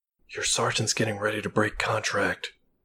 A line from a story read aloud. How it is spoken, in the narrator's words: she whispered hastily